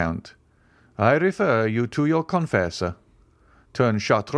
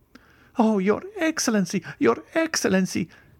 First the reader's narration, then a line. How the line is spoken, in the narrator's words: cried the steward, struck with terror at this threat